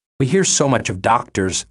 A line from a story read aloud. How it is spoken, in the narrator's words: the oldest exclaimed harshly